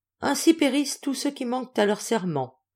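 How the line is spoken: Solemn announcement. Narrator (French): annonça Alexis d'un ton solennel

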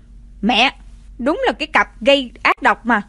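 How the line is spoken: Cold shout. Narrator (Vietnamese): Mạnh Phù Dao lạnh lùng quát

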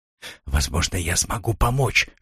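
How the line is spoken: Female whisper. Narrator (Russian): шепнула она

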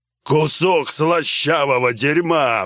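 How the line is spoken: Roaring, big brute. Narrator (Russian): взревел громила

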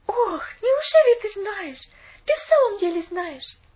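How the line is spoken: Pleading. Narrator (Russian): взмолилась Поллианна

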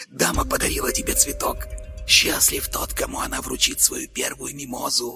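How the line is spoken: Whisper. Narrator (Russian): прошептал Карл

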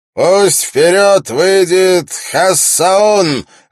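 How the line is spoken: Loud announcement. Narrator (Russian): громко объявил

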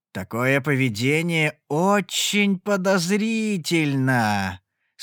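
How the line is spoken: Hopeful growl. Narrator (Russian): с надеждой прорычал Эваран

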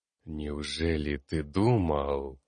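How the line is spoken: Robed figure hissing. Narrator (Russian): прошипела фигура в балахоне

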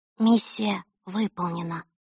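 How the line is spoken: Quiet. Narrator (Russian): тихо сказала

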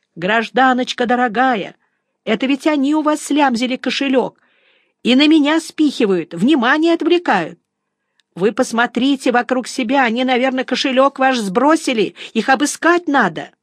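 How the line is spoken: Frantic shouting. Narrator (Russian): Вор, припадочно бившийся у меня в руках, кричал ей

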